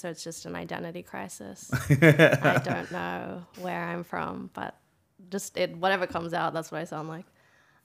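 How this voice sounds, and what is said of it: Slight American-sounding accent. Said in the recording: “You've got a bit of American accent now ... my Americans think I'm Australian, and then Aussies think I'm American”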